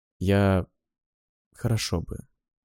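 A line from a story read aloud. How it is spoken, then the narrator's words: Muttered. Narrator (Russian): пробормотал я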